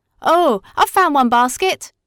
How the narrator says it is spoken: cried Herbert

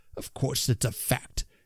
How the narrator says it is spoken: answered my uncle testily

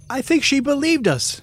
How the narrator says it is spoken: shouted Foggy triumphantly

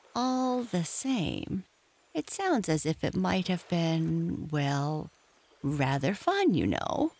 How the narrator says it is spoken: he added wistfully

